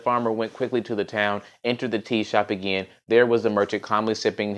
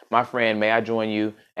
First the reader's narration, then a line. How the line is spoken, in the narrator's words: asked the farmer